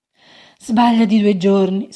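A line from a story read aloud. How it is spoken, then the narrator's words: Sigh. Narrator (Italian): sospirò il cappellaio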